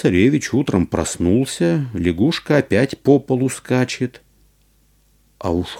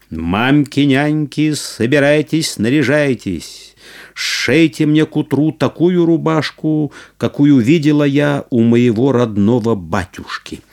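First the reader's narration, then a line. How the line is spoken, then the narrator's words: Shout. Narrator (Russian): Василиса Премудрая крикнула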